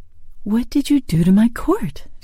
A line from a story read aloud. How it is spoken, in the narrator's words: she asked hastily